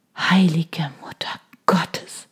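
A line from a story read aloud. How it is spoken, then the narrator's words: Murmured. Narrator (German): hörte ich mich murmeln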